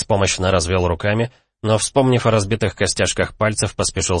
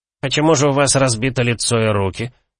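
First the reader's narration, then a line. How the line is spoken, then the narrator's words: Snide question. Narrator (Russian): ехидно поинтересовался Нуро Аредис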